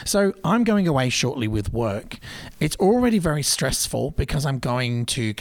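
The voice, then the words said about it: Foreign accent. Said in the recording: “With the accent, I've been here for a very long time in this country.”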